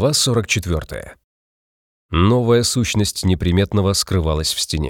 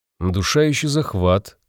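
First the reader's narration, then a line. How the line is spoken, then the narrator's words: Thoughtful listing. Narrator (Russian): стал задумчиво перечислять Вабишевски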